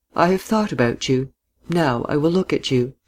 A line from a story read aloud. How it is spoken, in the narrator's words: she said quietly, smiling